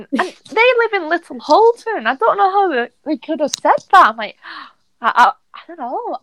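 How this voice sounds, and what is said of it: Bolton English accent. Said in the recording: “You're from Bolton, aren't you? ... you could tell by your accent ... my accent isn't that Bolton, is it?”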